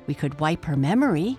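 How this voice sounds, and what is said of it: Hissing character voice. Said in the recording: “Miku suggested in her hissing voice.”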